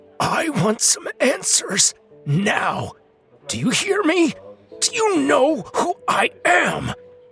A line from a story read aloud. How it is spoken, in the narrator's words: His voice was cracking, and his words were coming out thick because of his parched throat and mouth